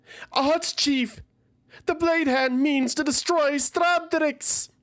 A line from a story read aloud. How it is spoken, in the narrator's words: She yelled back to Tsalast